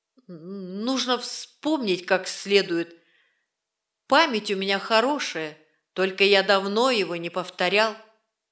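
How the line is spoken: Halting, strained speech. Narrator (Russian): Стриж, запинаясь, выдавил

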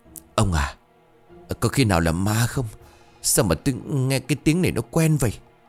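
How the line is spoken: Woman stammering fearfully. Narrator (Vietnamese): bà bá bấy giờ liền lắp bắp

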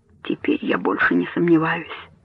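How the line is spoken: Bitter low whisper. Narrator (Russian): с горечью прошептал он вполголоса

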